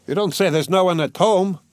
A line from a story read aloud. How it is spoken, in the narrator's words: the newcomer cried in a cheerful, ringing voice